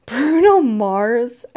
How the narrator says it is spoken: I laughed

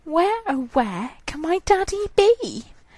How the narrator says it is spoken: she cried

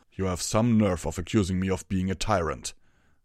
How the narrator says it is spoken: Torado snarled

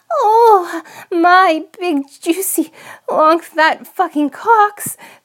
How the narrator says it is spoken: the princess shrieked

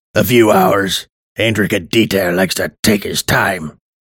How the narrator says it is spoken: said harshly

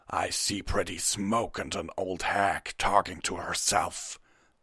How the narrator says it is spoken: Hesrock growled

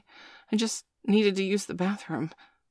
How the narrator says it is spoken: Bailey stammered, though the idea of talking back to this woman scared the shit out of him

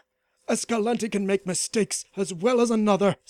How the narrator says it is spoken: snapped Dion, sweating at the mere thought of failure

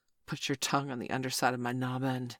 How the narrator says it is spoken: he gasped

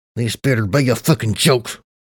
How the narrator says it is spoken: I growled between my teeth

